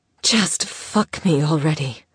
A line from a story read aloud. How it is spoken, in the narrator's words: she rasped